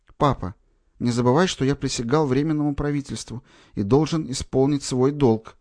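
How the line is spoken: Quiet but forceful, young man. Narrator (Russian): тихо, но внушительно отвечал юноша

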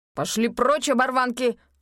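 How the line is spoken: Growled. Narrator (Russian): прорычал продавец

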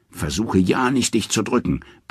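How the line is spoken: Roaring after. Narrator (German): brüllt Thor ihm nach

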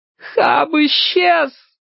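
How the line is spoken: Sobbing shout. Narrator (Russian): рыдая, крикнула Чарли

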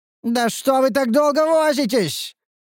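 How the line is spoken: Hysterical shout. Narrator (Russian): истерично прокричал вожак противника

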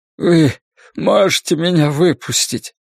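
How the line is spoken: Sobbing. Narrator (Russian): всхлипнул Ллойд

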